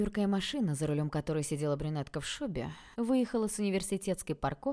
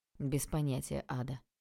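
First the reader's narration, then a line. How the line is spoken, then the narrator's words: Dry. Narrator (Russian): сухо ответил тот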